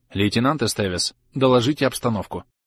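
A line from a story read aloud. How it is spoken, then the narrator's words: Firm command. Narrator (Russian): приказала твердым голосом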